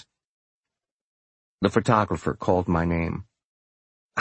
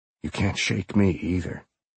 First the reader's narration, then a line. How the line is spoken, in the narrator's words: he whispered